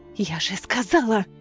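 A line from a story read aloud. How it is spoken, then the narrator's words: Furious hiss. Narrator (Russian): прошипела огню взбешенная Неста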